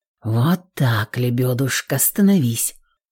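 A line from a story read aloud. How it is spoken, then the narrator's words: Mumble. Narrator (Russian): Пробормотал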